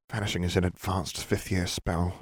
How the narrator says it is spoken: she muttered

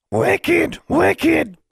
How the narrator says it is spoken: Charlie shrieking

